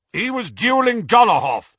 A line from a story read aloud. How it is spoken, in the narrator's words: shouted Aberforth